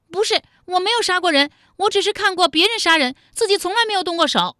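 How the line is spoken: Screaming. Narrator (Chinese): 武灵爵尖叫道

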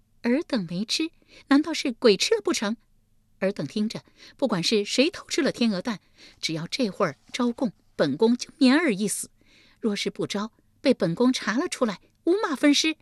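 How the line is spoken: Sneering. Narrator (Chinese): 立即冷笑一声道

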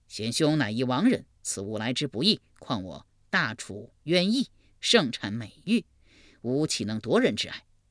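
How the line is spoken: Plain. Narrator (Chinese): 一边说

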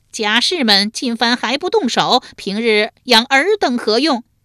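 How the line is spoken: Loud commanding shout. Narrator (Chinese): 树雕见其不妙，大声喝道

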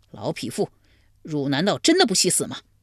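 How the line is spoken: Furious. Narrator (Chinese): 怀公大怒

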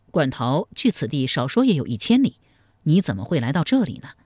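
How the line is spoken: Plain question. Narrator (Chinese): 赵匡胤又问

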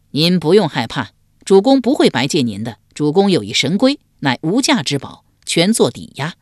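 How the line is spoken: Laughing. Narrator (Chinese): 管仲笑道

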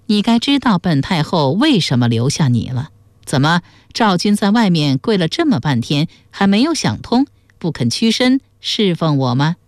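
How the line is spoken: Smiling. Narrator (Chinese): 江米微笑说

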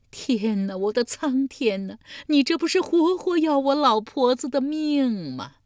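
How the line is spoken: Old woman wailing, near fainting. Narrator (Chinese): 老妪几乎又是哭昏过去

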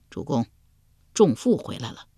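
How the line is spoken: Soft-spoken. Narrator (Chinese): 鲍叔牙对齐桓公轻声说道

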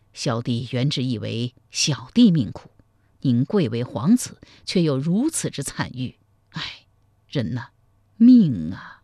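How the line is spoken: Heavy sigh. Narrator (Chinese): 赵匡胤喟然长叹道

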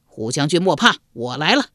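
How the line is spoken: Loud shout. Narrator (Chinese): 一将高声叫道

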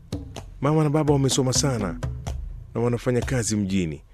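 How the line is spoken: Sarcastic reply. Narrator (Swahili): alinijibu kwa kejeli

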